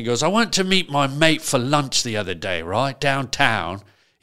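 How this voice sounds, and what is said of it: Put-on British accent. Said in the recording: “British accent.”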